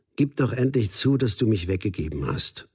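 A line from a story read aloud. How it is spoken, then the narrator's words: Lowered voice. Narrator (German): sagte Daniel, noch immer mit gesenkter Stimme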